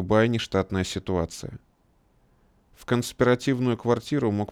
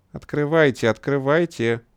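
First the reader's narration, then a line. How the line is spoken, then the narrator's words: Ringing childlike singsong. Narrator (Russian): звонким детским голоском пропела женщина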